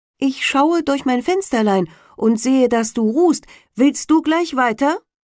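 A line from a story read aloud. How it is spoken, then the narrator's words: Calling from basket. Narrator (German): rief eine im Korbe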